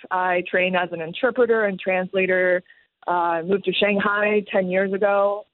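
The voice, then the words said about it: American-sounding English accent. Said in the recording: “I have this very deceivingly American accent”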